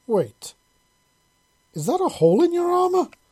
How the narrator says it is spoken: Visa exclaimed

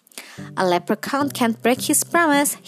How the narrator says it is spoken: he chuckled

